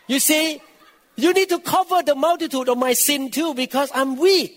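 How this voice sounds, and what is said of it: Non-native English accent. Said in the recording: “always teased my accent”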